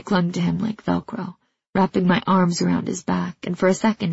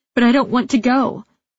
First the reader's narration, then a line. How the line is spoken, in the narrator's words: I cried